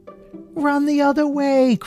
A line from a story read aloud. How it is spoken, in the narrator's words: cried Kitty